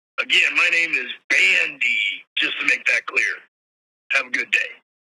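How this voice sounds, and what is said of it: Put-on fake voice. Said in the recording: “Sounded like a fake voice.”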